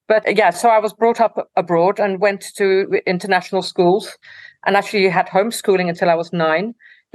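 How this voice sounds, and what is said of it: Slight Dutch accent in English. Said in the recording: “I was born in the Netherlands ... a bit of an accent in my English”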